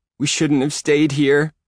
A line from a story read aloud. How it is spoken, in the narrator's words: Nugget cries